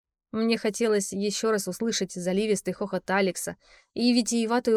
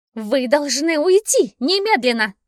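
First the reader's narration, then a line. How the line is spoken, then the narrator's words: Angry shrill shriek. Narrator (Russian): гневно взвизгнула королева гномов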